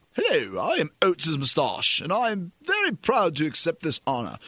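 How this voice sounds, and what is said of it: Regal, pompous British-accented voice. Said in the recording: “like a very regal sounding voice ... Why he has a British accent, I'm not sure, but he's kind of pompous.”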